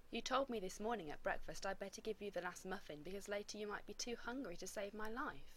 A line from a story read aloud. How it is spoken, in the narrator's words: Ronan said dryly